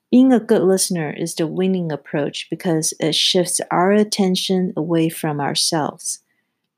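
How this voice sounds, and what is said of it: Non-native English accent. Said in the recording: “my accent and imperfect English”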